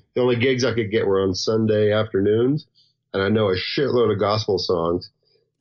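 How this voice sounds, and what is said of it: Southern US accent. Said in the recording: “I've got a southern accent and I'm from the south”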